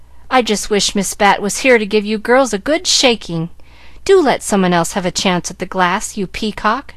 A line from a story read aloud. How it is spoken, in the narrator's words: exclaimed Molly Loo